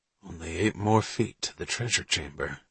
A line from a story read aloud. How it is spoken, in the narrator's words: Needleman murmured